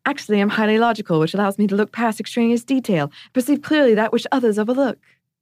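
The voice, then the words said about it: Imitated Hermione Granger accent. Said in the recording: “should I do my Hermione accent? ... The accent wasn't good, but the timing was very good.”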